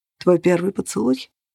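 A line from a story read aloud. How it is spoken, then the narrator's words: Muffled hollow voice. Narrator (Russian): глухо выговорил Грегор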